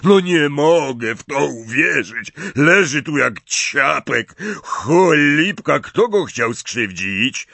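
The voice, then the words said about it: Hoarse character voice. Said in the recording (Polish): “powiedział ochrypłym głosem Hagrid”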